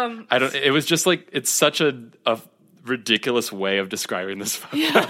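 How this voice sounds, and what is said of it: Usual voice. Nothing is said of it.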